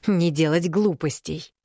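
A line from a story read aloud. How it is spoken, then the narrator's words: Angrily repeated aloud. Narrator (Russian): зло повторила уже вслух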